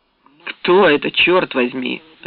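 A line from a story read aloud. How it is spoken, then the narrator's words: Barked. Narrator (Russian): рявкнул Фоллетт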